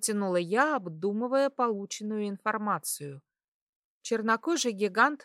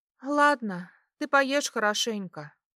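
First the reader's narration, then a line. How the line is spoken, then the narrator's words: Slightly embarrassed sigh. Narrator (Russian): вздохнула я, чуть смутившись от увиденной сцены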